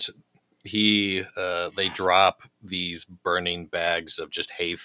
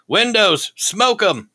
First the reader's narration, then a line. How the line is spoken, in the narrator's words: you hear him yell up